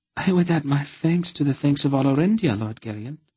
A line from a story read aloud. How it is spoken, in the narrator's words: she breathed at him